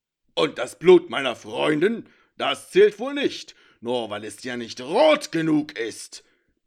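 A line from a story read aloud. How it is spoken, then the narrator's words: Bark. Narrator (German): bellte Levirock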